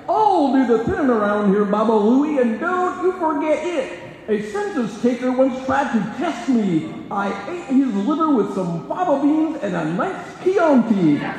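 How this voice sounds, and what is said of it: Old cartoon character voice. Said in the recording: “do this in the voice of Quick Draw McGraw”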